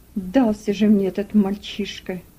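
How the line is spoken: Muttered. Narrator (Russian): пробормотал работорговец

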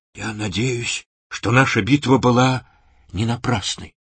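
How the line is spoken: Weak, strained whisper. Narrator (Russian): тот наконец-то сумел прошептать

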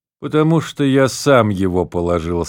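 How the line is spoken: Plain. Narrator (Russian): сказал отец Браун

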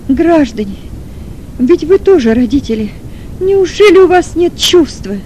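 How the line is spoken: Sobbing shout. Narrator (Russian): Кричала с рыданием мать Маргариты

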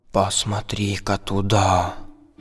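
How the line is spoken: Whisper in ear. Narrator (Russian): Буху прошептал на ухо Фару

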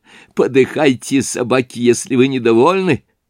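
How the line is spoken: Laughing. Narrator (Russian): он усмеялся

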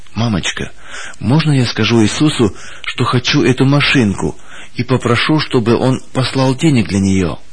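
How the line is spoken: Child's whisper. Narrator (Russian): Саша прошептал

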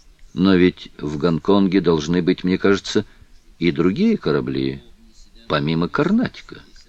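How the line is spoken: Calm. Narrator (Russian): Филиас Фок спокойно произнес

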